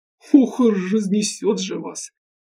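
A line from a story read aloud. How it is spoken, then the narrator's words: Short laugh. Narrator (Russian): хохотнул он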